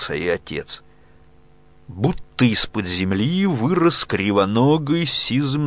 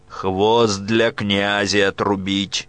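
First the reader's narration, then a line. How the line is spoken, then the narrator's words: Stern command. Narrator (Russian): строго приказал он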